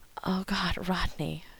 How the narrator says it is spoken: John gasped

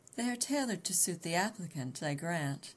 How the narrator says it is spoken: he laughed

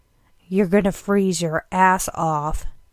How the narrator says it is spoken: Dean muttered, with a look of exasperation

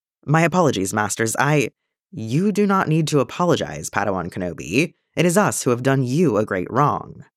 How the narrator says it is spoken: Master Nu said

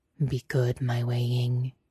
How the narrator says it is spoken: murmured

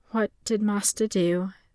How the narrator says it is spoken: The Padawan asked in a tired, unsurprised tone

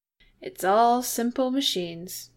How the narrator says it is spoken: Jim pointed out cheerfully

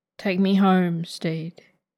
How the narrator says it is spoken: Ed murmurs

